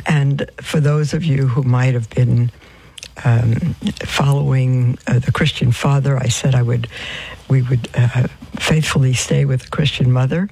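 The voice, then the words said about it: Hoarse voice. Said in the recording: “My voice is hoarse. I'm not sick. Just the way I am.”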